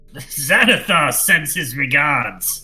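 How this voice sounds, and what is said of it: Deep voice, orcish fantasy accent. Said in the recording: “in a deep voice with an orcish accent”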